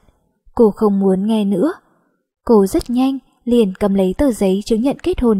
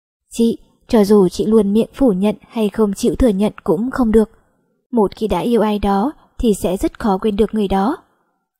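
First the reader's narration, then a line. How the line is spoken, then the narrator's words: Soft-spoken. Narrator (Vietnamese): Bạch Hi Hi nhỏ giọng nói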